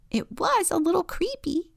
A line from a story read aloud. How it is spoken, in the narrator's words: giggles Bird